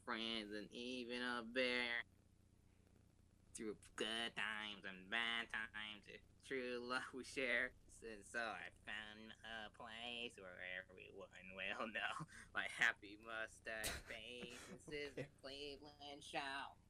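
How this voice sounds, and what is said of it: Singing impression of Cleveland Brown. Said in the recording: “that's his impression of Cleveland Brown”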